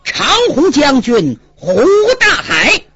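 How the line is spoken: Loud shout. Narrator (Chinese): 中军向下高声喊道

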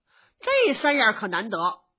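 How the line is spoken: Smiling. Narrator (Chinese): 明烟笑着说

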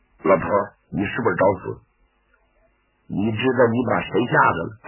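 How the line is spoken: Lowered hushed voice. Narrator (Chinese): 站彪压低了声音

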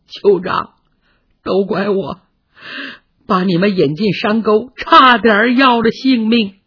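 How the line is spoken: Crying. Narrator (Chinese): 哭了

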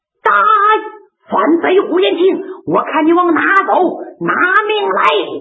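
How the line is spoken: Shouting. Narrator (Chinese): 杨文广高喊

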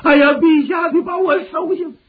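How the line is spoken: Weeping plea. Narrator (Chinese): 孟达，哭拜于地

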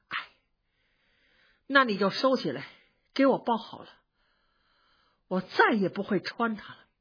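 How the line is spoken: Moved sigh. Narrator (Chinese): 宝玉听了这句话，正碰到自个儿的心坎上，就叹了一口气说

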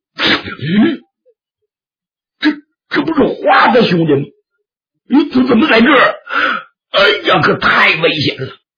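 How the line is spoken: Loud shout. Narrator (Chinese): 猛英雄大喊一声

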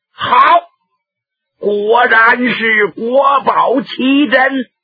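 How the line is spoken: Shout. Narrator (Chinese): 中宗李显在沉默了好一段时间之后，忽然把腰板一拔，喊了一声

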